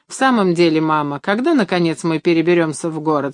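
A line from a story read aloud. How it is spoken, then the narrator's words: Plain. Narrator (Russian): спросил Леонид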